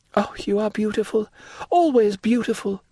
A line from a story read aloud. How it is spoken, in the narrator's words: cried Louise